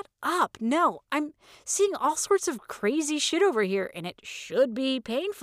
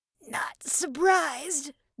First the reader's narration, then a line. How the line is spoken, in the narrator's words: Gloria said in a faint whisper